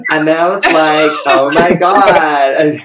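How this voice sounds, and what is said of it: Put-on American accent. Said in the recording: “accent ... I had to get into my American character.”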